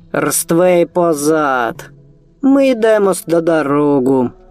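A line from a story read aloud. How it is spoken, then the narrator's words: Creaky voice. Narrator (Russian): проскрипел щур-воин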